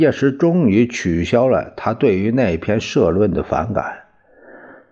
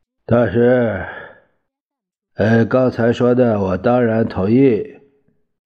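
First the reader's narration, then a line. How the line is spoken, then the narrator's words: Reluctant, resigned. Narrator (Chinese): 他心头叹气，终于说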